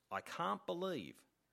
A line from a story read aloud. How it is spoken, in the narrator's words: said